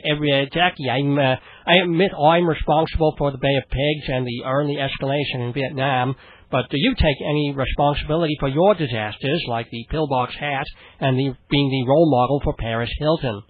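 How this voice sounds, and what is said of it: John F. Kennedy impression, Boston accent. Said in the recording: “If I were to do a little bit of John F. Kennedy ... this is Howard Stern pretty much doing John F. Kennedy. All it is a sort of a Boston accent because you throw era in front of everything. And that makes it Bostonian.”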